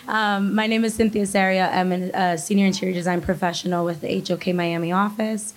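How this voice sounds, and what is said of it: Voice sounds unwell, not normal. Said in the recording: “excuse my voice, I don't always sound like this, but it's been a rough couple days”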